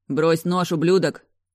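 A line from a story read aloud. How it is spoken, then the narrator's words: Shouted. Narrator (Russian): кричал Генри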